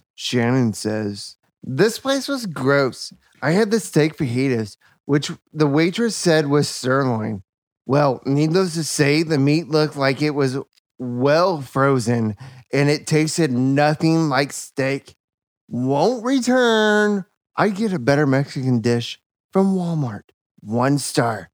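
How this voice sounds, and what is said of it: Funny voice. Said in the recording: “Read in a funny voice. ... let's hear your bad review in a funny voice.”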